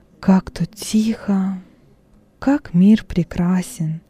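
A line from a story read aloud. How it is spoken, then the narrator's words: Quiet speech. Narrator (Russian): негромко говорил Вениций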